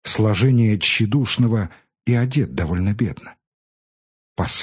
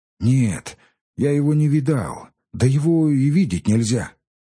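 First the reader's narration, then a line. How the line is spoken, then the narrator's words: Hoarse, weak voice. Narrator (Russian): отвечал Ильюша сиплым и слабым голосом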